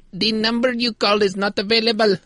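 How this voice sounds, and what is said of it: Put-on Indian-sounding accent. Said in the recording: “some lady with an indescribable accent going ... That sounded offensively Indian”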